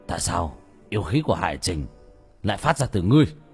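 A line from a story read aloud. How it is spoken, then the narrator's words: Growling, menacing. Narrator (Vietnamese): Hắn gầm mặt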